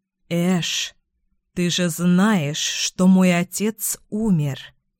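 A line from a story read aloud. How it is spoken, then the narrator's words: Slow drawl. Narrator (Russian): медленно протянула я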